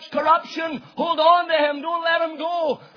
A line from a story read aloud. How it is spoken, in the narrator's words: death shouts